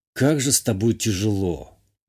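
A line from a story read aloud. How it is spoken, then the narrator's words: Grumbling. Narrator (Russian): буркнул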